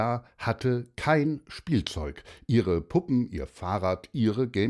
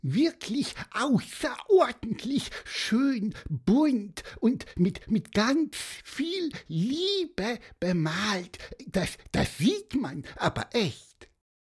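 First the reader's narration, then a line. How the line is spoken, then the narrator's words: Squeaky. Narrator (German): piepste Pieper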